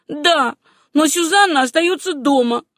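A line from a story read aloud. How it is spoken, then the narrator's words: Sobbing. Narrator (Russian): все еще рыдая сказала Руфь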